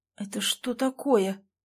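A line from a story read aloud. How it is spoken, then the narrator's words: Whispered. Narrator (Russian): прошептала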